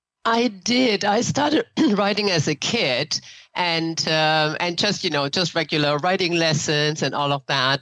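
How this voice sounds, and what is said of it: German accent. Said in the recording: “I hear an accent. ... I grew up in Germany.”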